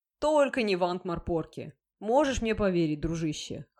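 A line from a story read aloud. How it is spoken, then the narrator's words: Snorting. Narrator (Russian): хмыкнул Шноби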